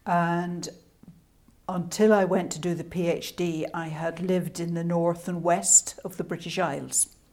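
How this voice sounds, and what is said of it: Scottish-Irish accent. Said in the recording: “My accent is Scottish / Irish.”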